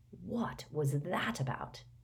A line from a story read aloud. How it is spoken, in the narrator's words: whispered Ron